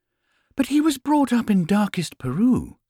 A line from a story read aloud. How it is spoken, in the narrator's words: exclaimed Mrs